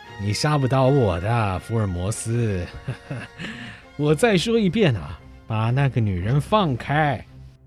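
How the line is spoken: Calm, contemptuous sneer. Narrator (Chinese): 恢复了原有的冷静，嘴角露出轻蔑的冷笑

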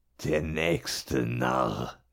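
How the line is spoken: Hissed through girl's body. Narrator (German): zischte der Loa im Körper des Mädchens

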